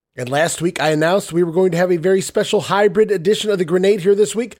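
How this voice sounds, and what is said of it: Stuffy, congested-sounding voice. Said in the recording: “you may be able to tell from my voice that I've been dealing with a little bit of the autumn allergies”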